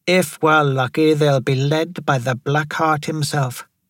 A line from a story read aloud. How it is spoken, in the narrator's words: Jamari Vidal stated flatly